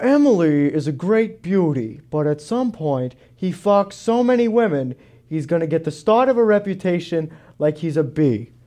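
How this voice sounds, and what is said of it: Imitates another person's voice. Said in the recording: “do a good Howard Stern impression”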